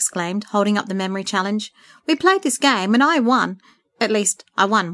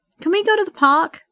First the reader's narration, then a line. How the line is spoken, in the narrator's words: Matt begged